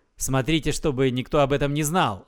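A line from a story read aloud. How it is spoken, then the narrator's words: Stern command. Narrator (Russian): строго наказал им Иисус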